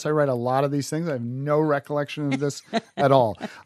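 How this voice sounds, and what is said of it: New York accent. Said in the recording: “your fabulous New York accent”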